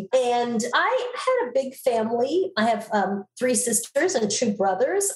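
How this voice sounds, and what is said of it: Flat neutral American accent. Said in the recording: “lose my Long Island accent. So now I have a very like flat nowhere accent.”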